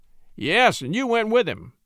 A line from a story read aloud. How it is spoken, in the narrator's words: exclaimed Brown, making a final stand